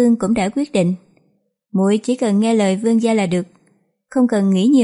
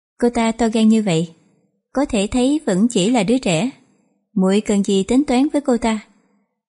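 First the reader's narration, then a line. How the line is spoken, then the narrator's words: Dry laugh. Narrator (Vietnamese): Khánh Vương Phi cười nhạt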